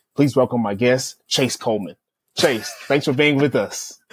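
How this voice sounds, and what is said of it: Polished podcast host voice. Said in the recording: “you have a podcast voice”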